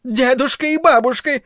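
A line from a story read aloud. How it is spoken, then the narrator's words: Shrieked. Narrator (Russian): взвизгнула она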